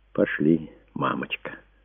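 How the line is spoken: Quiet. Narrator (Russian): тихо проговорил он

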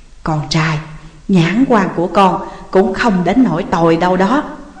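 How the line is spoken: Mother's whisper. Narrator (Vietnamese): Mẹ sáng thì thầm

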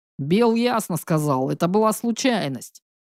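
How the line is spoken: Deep bass voice. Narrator (Russian): пробасил Резнов

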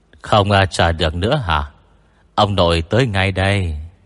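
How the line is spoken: Cold sneering laugh. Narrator (Vietnamese): Tịch Ưng Chân cười nhạt

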